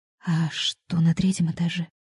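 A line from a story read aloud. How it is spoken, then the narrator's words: Barely audible question. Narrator (Russian): еле слышно поинтересовалась Антонина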